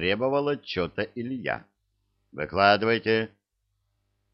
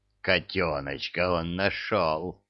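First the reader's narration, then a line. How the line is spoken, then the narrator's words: Growled. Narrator (Russian): прорычала правая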